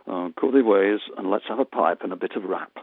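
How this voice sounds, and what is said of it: Put-on Yorkshire accent. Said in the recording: “I'm not from Yorkshire, but this is a Yorkshire accent anyway.”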